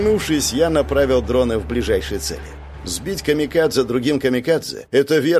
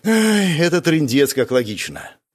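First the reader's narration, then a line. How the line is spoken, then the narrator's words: Breathless, strained. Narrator (Russian): выдохнул я, чувствуя, как руки дрожат от перегрузки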